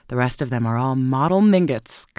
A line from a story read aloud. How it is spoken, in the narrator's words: cried the old lady scornfully